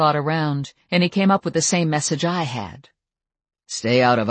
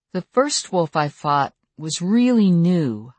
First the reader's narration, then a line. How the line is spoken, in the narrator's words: I said slowly